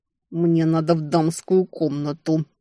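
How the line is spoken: Hissed through teeth, by a sister. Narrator (Russian): Сквозь зубы прошипела сестра

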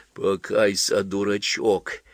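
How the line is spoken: Whisper. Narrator (Russian): прошептал Тупицын

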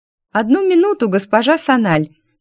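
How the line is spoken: Cheerful, young woman. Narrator (Russian): Весело откликнулась за всех первая красавица нашего выпуска Адиль

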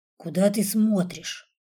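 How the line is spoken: Plain. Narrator (Russian): спросил

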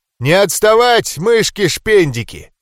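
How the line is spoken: Orc's shout. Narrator (Russian): крикнул орк

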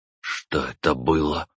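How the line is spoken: Whisper. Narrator (Russian): прошептал Дубов

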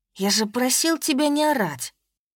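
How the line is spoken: Hiss. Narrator (Russian): прошипел Евгений Романович

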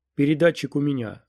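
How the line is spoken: Plain. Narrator (Russian): сказал он

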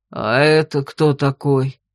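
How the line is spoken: Several alarmed voices. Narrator (Russian): Раздалось сразу несколько встревоженных голосов

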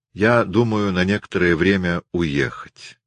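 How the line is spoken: Calm. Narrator (Russian): Бианка сказала спокойно

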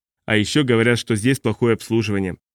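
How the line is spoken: Plain. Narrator (Russian): ответил я

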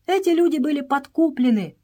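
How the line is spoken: Desperate shout. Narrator (Russian): закричала Мария с отчаянием

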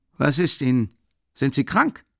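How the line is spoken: Rather sharp question. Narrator (German): fragte Nikodem Fomitsch ziemlich scharf

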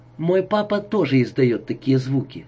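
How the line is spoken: Calm child's remark. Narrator (Russian): спокойно отметил мальчик

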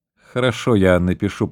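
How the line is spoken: Mumbled. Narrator (Russian): пробормотал граф

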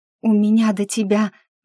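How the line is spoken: Breathless exhale. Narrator (Russian): выдохнула я, понимая, что слегка поздно

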